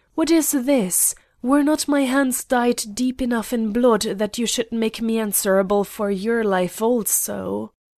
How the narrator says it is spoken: he shrieked

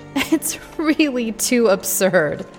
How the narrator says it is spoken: she laughed out

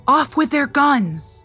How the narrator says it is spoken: Lewis behind him shouting

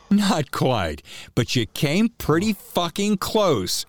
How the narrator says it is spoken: she shouted

